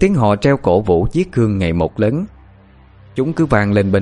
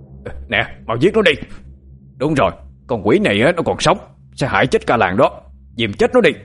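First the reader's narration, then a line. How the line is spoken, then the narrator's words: Village officials shouting. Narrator (Vietnamese): tiếng la hét của đám hương chức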